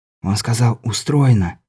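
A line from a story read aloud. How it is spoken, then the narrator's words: Whisper. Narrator (Russian): шепнул Беляев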